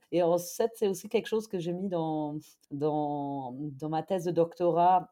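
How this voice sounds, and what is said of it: German accent speaking French. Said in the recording (French): “si vous avez peut-être entendu mon accent, je suis allemande de base”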